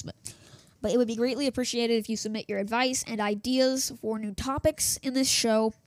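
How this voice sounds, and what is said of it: Voice starting to go, strained. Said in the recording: “I'm starting to lose my voice. I've been talking for 12 minutes now in this single recording. ... I hate it when I lose my voice”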